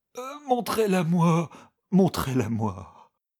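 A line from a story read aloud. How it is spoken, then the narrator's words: Tortured moaning. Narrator (French): gémissait vaincu par la torture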